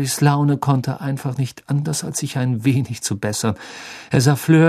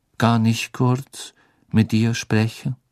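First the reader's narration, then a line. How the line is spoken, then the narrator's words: Plain question. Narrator (German): fragte er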